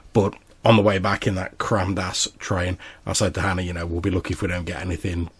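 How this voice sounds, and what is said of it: Hoarse, recovering voice. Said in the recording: “my voice has been almost non-existent for the last week. I'm very hoarse ... but started getting a bit better now”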